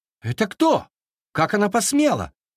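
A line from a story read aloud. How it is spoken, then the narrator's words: Furious shout. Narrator (Russian): закричал принц в бешенстве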